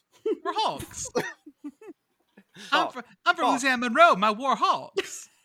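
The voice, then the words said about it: Put-on Louisiana Monroe accent. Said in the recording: “That sounds like a really good Monroe accent there.”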